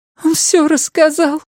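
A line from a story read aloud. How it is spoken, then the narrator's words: Sobbing. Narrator (Russian): всхлипнула она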